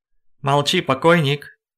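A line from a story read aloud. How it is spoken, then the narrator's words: Cheerful. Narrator (Russian): весело сказал господин Мархель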